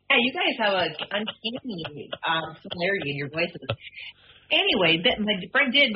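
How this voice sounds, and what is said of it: Usual voice. Nothing is said of it.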